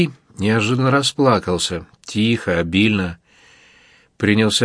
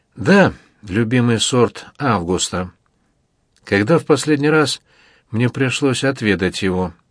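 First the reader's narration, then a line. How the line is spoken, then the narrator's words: Sighing. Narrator (Russian): Бибий вздохнул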